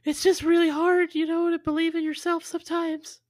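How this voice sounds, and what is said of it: Unusually high-pitched voice. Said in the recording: “my voice gets really high pitched when I get uncomfortable emotionally”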